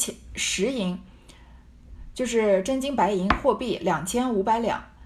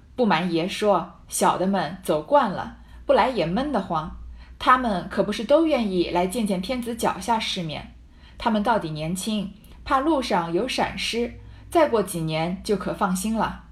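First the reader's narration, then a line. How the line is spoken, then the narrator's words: Laughing. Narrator (Chinese): 乌敬孝笑道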